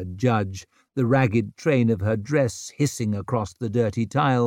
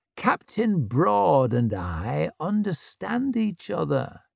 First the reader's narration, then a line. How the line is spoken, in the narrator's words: she said softly